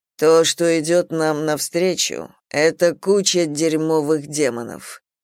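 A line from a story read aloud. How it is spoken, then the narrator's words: Low voice. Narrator (Russian): сказал Рот низким голосом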